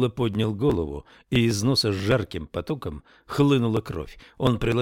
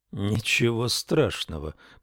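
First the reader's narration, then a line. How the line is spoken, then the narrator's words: Muttered. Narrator (Russian): пробормотал Ламар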